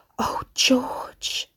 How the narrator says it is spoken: his mother breathed

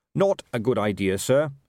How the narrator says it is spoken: said Carrot firmly

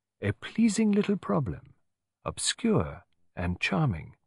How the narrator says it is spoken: murmured Poirot

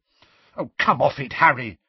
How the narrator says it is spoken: said Hermione angrily

